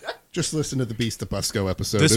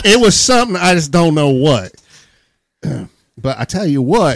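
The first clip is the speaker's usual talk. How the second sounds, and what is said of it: Put-on hillbilly accent. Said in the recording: “hillbilly Indiana people talking ... just hillbillies talking ... The accent you”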